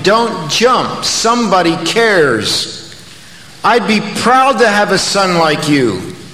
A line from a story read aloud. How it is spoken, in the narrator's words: he was shouting